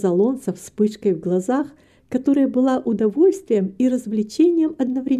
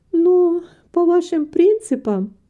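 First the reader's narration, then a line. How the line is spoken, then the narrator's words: Said laughing, blushing. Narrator (Russian): сказала Рита, мило краснея, хотя и смеясь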